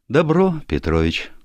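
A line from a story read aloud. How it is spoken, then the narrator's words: Speech with heavy sigh. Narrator (Russian): сказала и вздохнула тяжело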